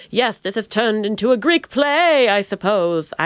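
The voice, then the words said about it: Theatrical put-on Greek-play accent. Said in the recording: “I have no idea what that accent was. I guess I was thinking it was sort of like Agamemnon or something like that.”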